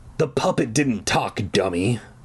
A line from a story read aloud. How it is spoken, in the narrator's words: the voice grumbled